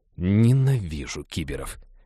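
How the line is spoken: Approving grumble. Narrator (Russian): одобрительно проворчал Хэл

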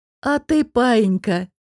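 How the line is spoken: Bursting into laughter. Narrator (Russian): Дестон не выдержал и рассмеялся

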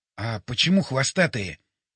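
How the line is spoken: Quiet question. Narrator (Russian): тихо спросил

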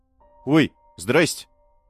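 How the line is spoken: Frightened boy's greeting. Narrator (Russian): Испуганно поздоровался рыжий паренек

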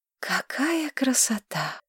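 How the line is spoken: Breathless exclamation. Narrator (Russian): выдохнула Маргарет

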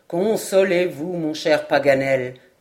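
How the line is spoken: Plain. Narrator (French): dit alors Glenarvan

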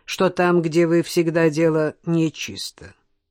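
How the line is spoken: Gloomy passing remark. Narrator (Russian): обронил Жоэль мрачно

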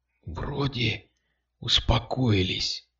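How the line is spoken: Whispered. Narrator (Russian): прошептал он

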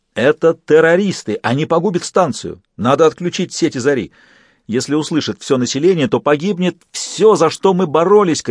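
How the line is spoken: Terrified shouting, trembling bass. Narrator (Russian): кричал королевство, и его густой сочный бас дрожал от ужаса

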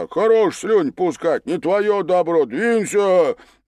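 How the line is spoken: Barking snap. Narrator (Russian): Чига рявкнул

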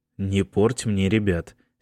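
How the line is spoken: Angry. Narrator (Russian): сердито сказал Майкл

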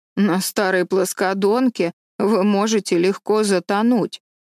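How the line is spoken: Grumbled. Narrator (Russian): проворчала Марилла

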